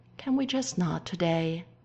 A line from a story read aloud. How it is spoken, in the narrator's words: Stiles sighs, feeling very tired